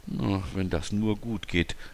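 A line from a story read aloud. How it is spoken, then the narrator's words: Murmured. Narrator (German): murmelte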